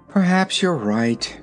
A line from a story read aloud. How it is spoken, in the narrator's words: said the little girl with a sigh